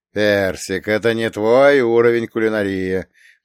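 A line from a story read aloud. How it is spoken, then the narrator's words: Grumbled. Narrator (Russian): проворчал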